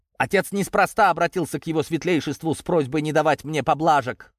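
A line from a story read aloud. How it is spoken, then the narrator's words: Snapping retort. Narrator (Russian): огрызнулся в ответ Даниил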